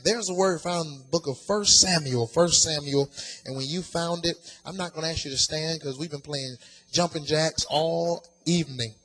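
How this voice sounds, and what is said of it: Southern US country accent. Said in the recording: “If I sound country and southern, it's because I am. ... born and raised in Atlanta, Georgia ... Some of my family are from deep south Georgia. ... Look past my accent”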